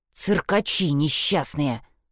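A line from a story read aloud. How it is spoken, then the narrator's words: Hissed into someone's face. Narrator (Russian): прошипела Шпрота ему в лицо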